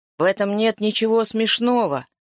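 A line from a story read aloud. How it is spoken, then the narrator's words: Angry interruption. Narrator (Russian): сердито оборвал бородач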